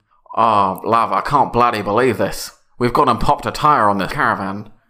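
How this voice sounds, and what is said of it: Put-on English, slightly Scottish accent. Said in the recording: “What was the accent you did? ... It's English. Almost a bit Scottish.”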